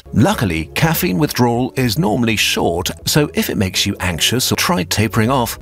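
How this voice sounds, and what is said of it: British accent. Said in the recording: “Your Brain on Caffeine has a British accent”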